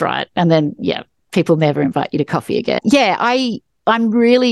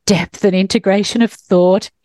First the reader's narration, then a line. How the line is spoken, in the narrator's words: he moaned